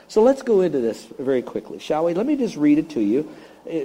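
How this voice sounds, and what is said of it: Usual voice. Nothing is said of it.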